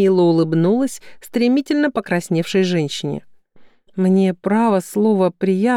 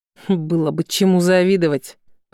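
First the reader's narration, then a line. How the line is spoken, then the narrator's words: Through gritted teeth, female. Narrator (Russian): процедила она сквозь зубы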